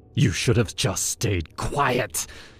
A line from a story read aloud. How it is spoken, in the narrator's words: he hissed